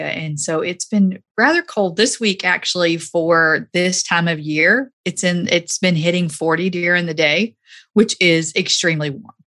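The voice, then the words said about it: Southern American accent. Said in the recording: “I am a Southern girl, and as you can, with this Southern accent”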